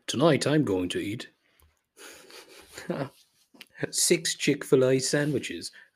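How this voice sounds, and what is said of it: Put-on British accent. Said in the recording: “I did that in a British accent or some sort of British accent.”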